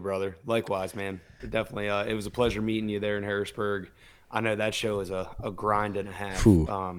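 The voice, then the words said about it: Slightly hoarse voice. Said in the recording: “my voice was shot, and I'm just getting over a cold ... So my voice is a little hoarse.”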